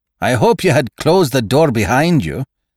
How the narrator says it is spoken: snapped Saunderson

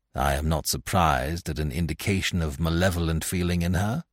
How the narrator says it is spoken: I said

